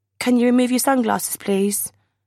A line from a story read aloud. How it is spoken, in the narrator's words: My voice is as shaky as my legs